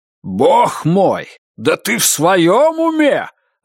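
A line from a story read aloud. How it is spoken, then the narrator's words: Roar. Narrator (Russian): взревел Эрб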